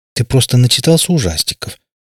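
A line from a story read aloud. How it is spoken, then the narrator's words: Softer. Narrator (Russian): более мягко, чем минуту назад проговорила мать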